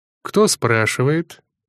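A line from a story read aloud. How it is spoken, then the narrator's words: Calm reply. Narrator (Russian): спокойно ответил лидер клана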